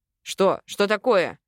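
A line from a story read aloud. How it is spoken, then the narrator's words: Panicked shout. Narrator (Russian): Крикнул я в панике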